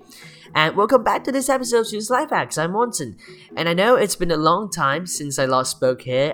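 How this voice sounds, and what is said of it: Slightly congested, allergy-affected voice. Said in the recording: “there are two problems with my voice ... it still sounds weird ... my nose is a bit allergic right now because it's winter ... that's two factors which make my sound a bit different today”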